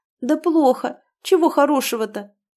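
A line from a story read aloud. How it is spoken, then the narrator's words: Tearful. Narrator (Russian): проговорила Света сквозь слезы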